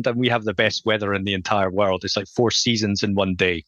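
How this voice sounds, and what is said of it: Scottish accent. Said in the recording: “if you can tell from my accent, I'm from Scotland”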